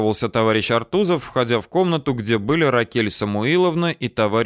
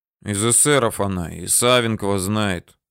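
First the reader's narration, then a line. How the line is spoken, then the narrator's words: Grumbling. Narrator (Russian): бурчал Тыжных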